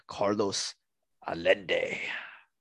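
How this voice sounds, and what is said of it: Put-on accent with swagger. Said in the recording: “saying it in an accent ... you got to put a little bit of swagger into it”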